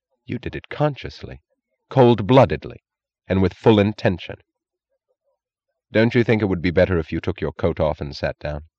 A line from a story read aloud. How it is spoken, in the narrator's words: She said in the solemn, merciless tone of a prosecutor